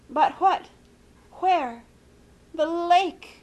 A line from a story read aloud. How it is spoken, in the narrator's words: moaned Aunt Celia